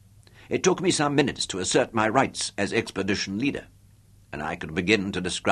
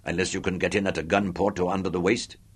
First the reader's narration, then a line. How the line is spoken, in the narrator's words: Chubby growled